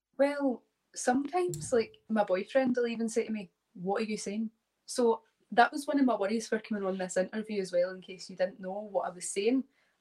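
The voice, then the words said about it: Scottish accent, speaking slowly. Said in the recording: “your accent is, I think it's a bit easier to understand ... the Scottish accent ... I'm actually talking a lot slower than what I would”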